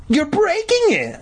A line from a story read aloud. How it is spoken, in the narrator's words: Mindy shrieked